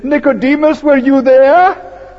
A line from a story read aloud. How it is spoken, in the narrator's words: I suddenly shouted